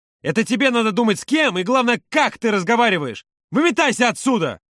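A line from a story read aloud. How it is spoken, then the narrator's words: Shouting. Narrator (Russian): закричал Володя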